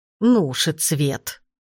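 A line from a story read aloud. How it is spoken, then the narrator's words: Grandmother grumbling. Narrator (Russian): проворчала бабушка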